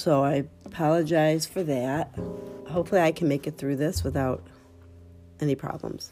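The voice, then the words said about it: Voice congested from a cold. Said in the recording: “I have a little bit of a cold”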